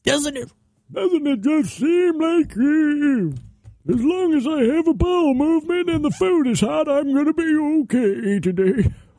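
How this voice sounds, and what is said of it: Old man voice. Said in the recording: “It's my old man voice right there.”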